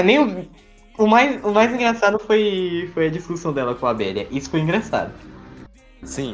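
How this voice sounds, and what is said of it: Usual voice. Nothing is said of it.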